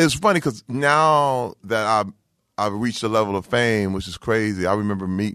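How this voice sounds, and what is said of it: Usual voice. Nothing is said of it.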